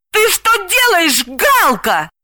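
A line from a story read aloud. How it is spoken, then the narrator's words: Shouting. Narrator (Russian): закричала она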